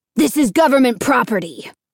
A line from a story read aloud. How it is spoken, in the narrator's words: the postmaster replied sharply